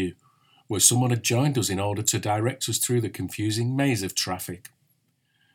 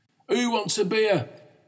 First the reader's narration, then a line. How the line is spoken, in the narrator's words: he cried